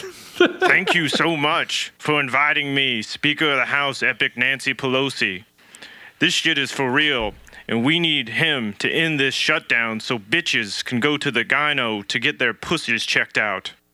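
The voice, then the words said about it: Imitates another person's voice. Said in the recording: “I do a pretty good Oprah impression.”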